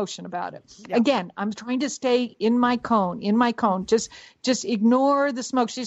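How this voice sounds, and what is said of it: Usual voice. Nothing is said of it.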